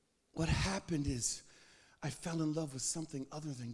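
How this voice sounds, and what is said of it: Usual voice. Nothing is said of it.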